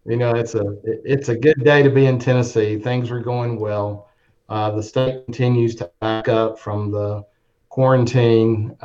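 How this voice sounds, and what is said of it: Heavy Southern drawl. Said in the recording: “he's got a heavy French accent. That's Southern drawl.”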